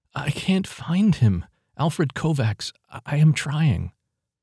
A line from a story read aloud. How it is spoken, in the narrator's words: Ava pleaded